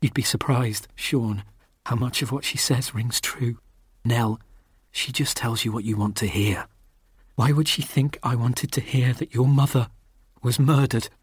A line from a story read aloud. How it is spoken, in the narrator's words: she whispered